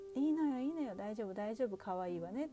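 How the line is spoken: Smiling. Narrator (Japanese): って微笑んでくれる

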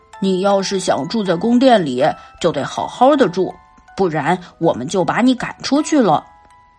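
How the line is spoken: Angry shouting. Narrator (Chinese): 生气的对他喊道

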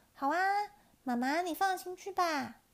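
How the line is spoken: Loud. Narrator (Chinese): 佳佳大声说

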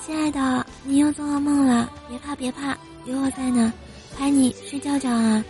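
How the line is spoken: Tender coaxing. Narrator (Chinese): 无比温柔的哄他说

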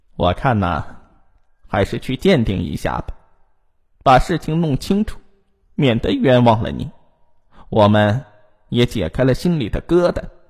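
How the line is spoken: Cold. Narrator (Chinese): 婆婆冷冷的说

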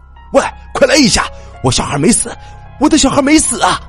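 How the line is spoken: Loud shouting. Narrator (Chinese): 她老公大声喊

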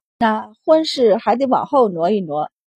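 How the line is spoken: Sighing. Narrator (Chinese): 钱氏便叹道

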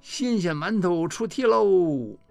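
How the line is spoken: Loud call. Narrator (Chinese): 歪歪桃大叫一声

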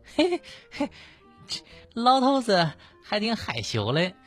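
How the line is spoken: Old woman laughing. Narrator (Chinese): 这老太太笑说

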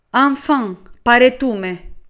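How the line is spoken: Said loudly. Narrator (Greek): είπα δυνατά

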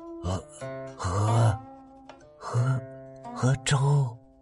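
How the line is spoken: Breathless, gasping speech. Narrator (Chinese): 司马懿喘息了一会儿，上气不接下气的说

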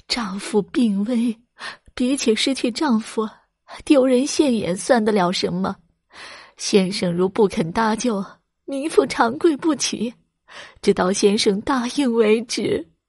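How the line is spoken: Crying. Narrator (Chinese): 刘氏哭着说

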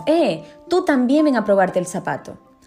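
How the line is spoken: Exclaiming. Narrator (Spanish): Uno de los sirvientes del príncipe exclamó

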